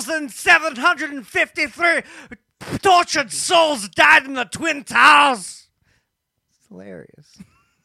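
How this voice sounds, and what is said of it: Heavy put-on Scottish accent. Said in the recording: “Do it all in a heavy Scottish accent.”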